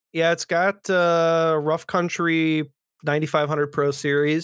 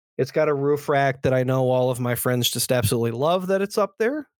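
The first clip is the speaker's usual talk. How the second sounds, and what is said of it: Sarcastic tone. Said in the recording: “That was sarcasm.”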